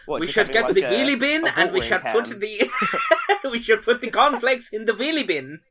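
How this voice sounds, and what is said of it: Put-on German accent. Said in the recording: “Your German accent was actually really impressive.”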